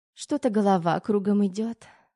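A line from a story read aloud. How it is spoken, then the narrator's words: Limp sigh. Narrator (Russian): вяло вздохнула Тома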